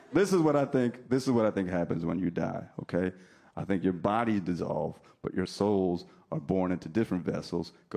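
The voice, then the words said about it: New Jersey accent. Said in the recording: “I don't know where your accent is from ... New Jersey”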